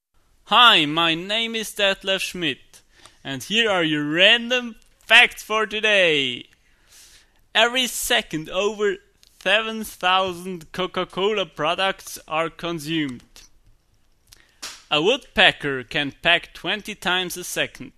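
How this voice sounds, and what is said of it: Overenthusiastic voice, terrible put-on accent. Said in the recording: “delivered by an overenthusiastic guy with a terrible accent”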